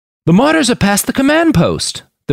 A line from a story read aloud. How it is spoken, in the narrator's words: the Brit shouted in sudden realization, his voice strained to be audible over the roar of the engines